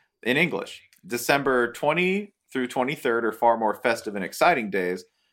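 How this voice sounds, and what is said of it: Usual voice. Nothing is said of it.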